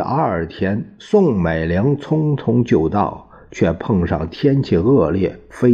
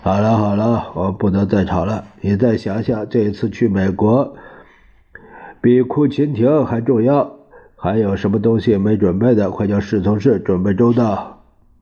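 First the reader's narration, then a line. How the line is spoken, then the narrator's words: Sighing. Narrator (Chinese): 他叹了口气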